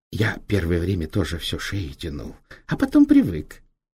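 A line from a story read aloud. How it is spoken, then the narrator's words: Whisper. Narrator (Russian): шепотом сказал Апанас Иванович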